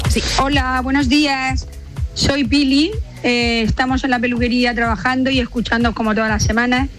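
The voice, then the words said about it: Murcian Spanish accent. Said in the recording (Spanish): “Oye, el acento murciano.”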